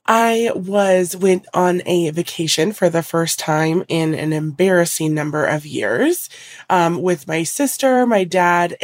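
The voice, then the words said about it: Voice sounds sick, slightly altered. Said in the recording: “I am recovering from a cold, so my voice is a little bit different.”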